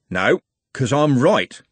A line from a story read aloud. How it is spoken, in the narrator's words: said Constable Haddock evenly